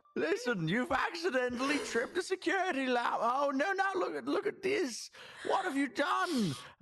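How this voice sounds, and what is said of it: Old fantasy character voice. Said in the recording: “I'm going to put on my best, like ... my country accent sounds like Tiberius ... I was going to do a country accent ... I've slipped into old fantasy D&D man”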